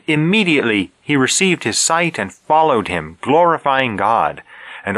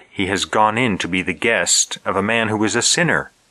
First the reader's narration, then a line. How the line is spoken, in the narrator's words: they all murmured